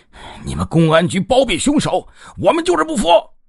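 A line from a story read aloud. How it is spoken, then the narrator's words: Angry shout. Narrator (Chinese): 肖老大气呼呼的嚷道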